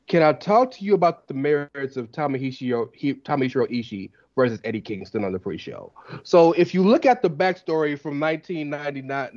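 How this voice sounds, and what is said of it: Imitates another person's voice. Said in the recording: “that was my impression ... that was my impression of Andrew.”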